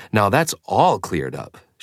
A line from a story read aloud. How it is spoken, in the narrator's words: she said sarcastically